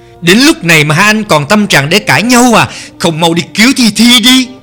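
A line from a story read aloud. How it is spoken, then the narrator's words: Loud shout. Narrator (Vietnamese): Tần Cẩm phải hét to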